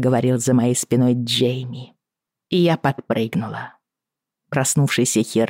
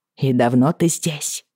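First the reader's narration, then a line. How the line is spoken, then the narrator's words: Angry question. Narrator (Russian): сердито спросила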